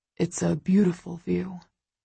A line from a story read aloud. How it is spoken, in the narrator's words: he murmurs